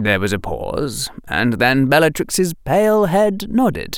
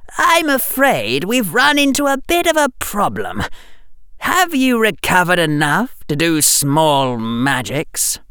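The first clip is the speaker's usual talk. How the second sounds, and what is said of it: Cold, high-pitched character voice. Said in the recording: “in his cold, high voice”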